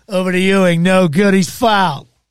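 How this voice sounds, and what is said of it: Sports announcer imitation. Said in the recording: “Jim Carvalho's ... Even though I don't do a good imitation.”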